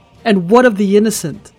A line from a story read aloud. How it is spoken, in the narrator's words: Chase yells